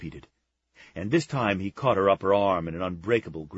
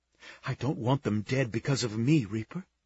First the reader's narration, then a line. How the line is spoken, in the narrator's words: she whispered